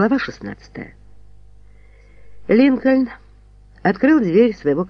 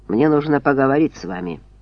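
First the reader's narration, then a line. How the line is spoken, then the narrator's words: Dry announcement. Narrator (Russian): Джастин сухо объявил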